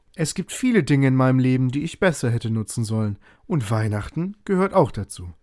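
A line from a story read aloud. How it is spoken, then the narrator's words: Plain. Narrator (German): antwortete der Neffe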